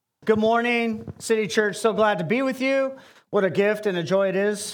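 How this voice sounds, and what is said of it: American accent. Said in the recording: “the American accent is like an audio ballet ... it might be grating”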